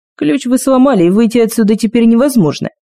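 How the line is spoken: Roaring laughter. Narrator (Russian): Кости расхохотался

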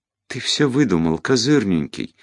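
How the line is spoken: Trembling babble. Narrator (Russian): дрожащим голосом пролепетала Жюли

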